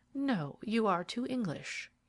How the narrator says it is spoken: said in a soft voice, which scarcely rose above a whisper

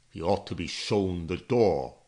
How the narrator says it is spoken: the Duke grumbled

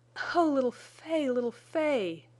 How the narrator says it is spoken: cried Jane

